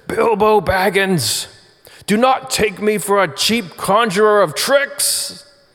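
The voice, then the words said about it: Gandalf impression. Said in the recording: “I'm gonna do an impression of, I think I'm gonna do the impression of Gandalf, because it's really important how he does it”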